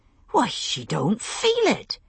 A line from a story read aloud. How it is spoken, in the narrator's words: exclaimed